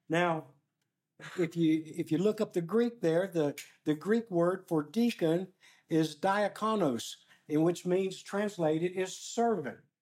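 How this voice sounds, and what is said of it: Voice getting low, losing it. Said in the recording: “my voice is just keeping going down, down, down. I'm losing my voice. ... If I get too low”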